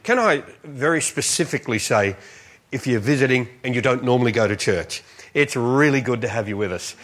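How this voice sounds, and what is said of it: Strong accent. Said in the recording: “I'm working from deficit with this accent, but I'm going to try and talk so you understand at least what I say.”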